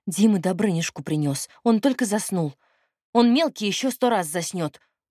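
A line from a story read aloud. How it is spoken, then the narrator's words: Lowered grumble. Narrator (Russian): буркнула Надя, но голос все же понизила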